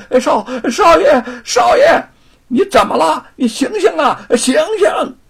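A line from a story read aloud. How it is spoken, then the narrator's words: Frightened shouting. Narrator (Chinese): 不由吓得大声的喊起来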